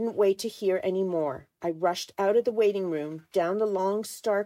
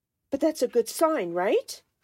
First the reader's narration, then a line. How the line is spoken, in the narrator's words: I asked, almost pleading with her